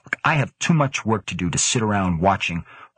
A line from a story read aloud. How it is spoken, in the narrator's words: Grant snapped